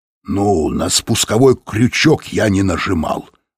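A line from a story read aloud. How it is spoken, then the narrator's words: Plain. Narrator (Russian): ответил тот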